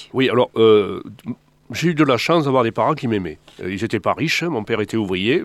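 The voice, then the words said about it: Slight southern French Midi accent. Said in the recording (French): “avec le bel accent... Je l'ai encore, mon accent... un petit peu... il est du midi”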